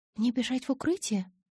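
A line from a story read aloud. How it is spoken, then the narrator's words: Timid question. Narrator (Russian): робко поинтересовалась я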